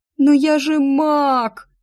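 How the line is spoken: Sobbing. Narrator (Russian): рыдала я

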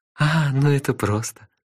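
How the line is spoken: Laughing. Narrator (Russian): рассмеялась Техи

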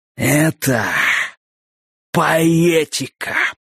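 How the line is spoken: Breathless exhale. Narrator (Russian): выдохнул Дак

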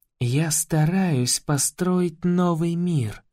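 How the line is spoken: Clipped, then sudden whisper. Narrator (Russian): отчеканивает она и вдруг переходит на шепот

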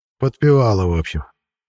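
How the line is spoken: Sigh. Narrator (Russian): вздохнул Семичастный

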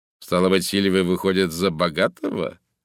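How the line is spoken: Mocking. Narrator (Russian): насмешливо заключил он

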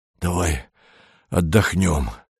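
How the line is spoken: Wheezy. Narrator (Russian): просипел Кандид

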